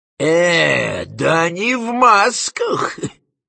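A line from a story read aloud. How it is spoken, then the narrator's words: Grumbling. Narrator (Russian): проворчала Зазелла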